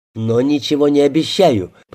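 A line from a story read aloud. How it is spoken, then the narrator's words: Angry warning. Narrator (Russian): предупредил он, зло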